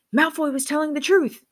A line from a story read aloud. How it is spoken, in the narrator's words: Harry shouted